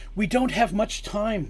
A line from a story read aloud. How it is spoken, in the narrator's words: the princess pleaded